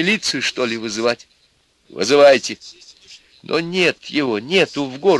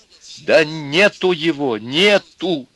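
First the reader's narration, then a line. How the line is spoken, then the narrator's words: Loud angry exclamation. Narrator (Russian): Тоже громко и сердито воскликнула мать, оскорбленная за подонка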